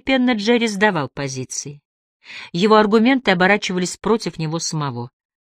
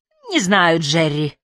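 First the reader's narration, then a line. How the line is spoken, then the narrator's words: Gloomy male voice. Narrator (Russian): мрачно говорил он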